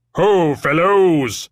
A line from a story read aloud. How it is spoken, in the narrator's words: he boomed